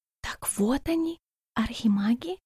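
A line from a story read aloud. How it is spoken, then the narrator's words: Awed whisper. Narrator (Russian): прошептала Альба с благоговением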